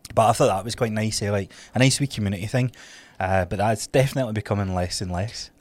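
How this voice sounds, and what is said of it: Congested, clogged-up voice. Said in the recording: “what's happening to your nose there? ... hear that in my voice? It was like goo all clogging up my throat”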